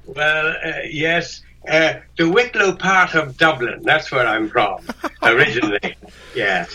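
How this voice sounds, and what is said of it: Irish accent. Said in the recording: “it's a lovely accent you have ... You're not Irish, though, are you? ... Yes. Oh, yes. Ireland”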